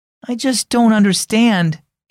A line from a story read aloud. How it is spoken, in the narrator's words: Avery cried